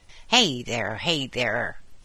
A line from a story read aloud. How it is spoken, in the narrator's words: exclaimed Molly Grubber crossly